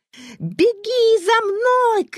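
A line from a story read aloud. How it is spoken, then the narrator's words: Shout. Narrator (Russian): крикнула Вера Коле Калинину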